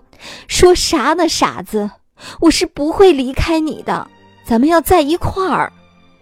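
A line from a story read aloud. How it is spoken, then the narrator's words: Hysterical crying roar. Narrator (Chinese): 妈妈歇斯底里的吼了起来，哭着说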